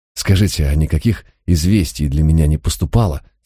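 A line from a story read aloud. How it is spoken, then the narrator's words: Trembling voice, asking. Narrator (Russian): спросил я дрожащим голосом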